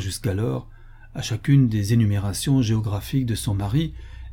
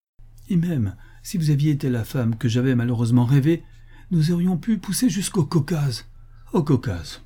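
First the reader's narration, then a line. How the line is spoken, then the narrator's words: Exclaimed. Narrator (French): s'écria Florence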